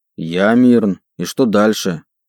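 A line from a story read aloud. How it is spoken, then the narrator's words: Rude, harsh reply. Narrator (Russian): Не менее грубо ответил я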